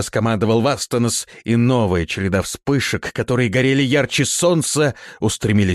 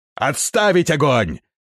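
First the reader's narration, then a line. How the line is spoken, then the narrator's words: Shouted. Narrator (Russian): крикнул Вастанос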